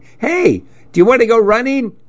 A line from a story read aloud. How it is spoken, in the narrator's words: When I passed Shiva's house, he yelled out at me